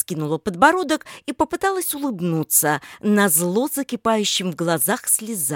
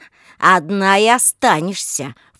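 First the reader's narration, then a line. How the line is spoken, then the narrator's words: Angry snort. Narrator (Russian): фыркнул злобно Олег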